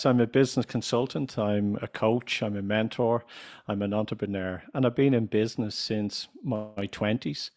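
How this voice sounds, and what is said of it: Irish accent. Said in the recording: “they might be able to figure it out from your accent ... I'm from Ireland”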